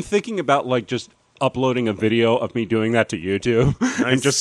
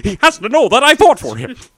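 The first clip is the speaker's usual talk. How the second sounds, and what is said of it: Imitates another person's voice. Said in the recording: “my Adam Driver impression”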